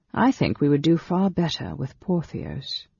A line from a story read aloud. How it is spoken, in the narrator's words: Dalimar added dryly